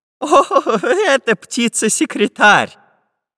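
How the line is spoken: Laughing. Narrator (Russian): Расхохотавшись, сказал Семен Семенович

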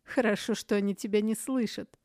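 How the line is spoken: Chuckling. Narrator (Russian): хохотнул Каэрх

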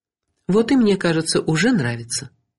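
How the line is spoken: Woman, uncertain. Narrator (Russian): неуверенно сказала женщина

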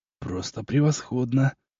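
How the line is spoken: Admiring whisper. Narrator (Russian): прошептал восхищенно

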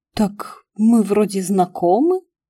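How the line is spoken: Uncertain reply. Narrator (Russian): неуверенно отозвался Петрик

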